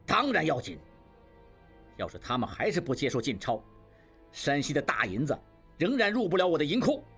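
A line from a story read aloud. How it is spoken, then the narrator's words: Loud voice. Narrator (Chinese): 金勇大声说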